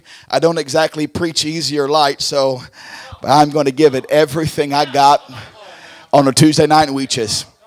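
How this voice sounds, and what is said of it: Weary, tired-sounding voice. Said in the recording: “I've noticed my voice is a little weary.”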